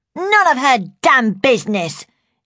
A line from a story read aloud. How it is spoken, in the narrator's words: she snarled